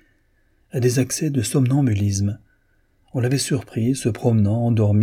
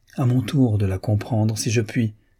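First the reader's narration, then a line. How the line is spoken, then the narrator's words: Plain. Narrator (French): dit Magdalène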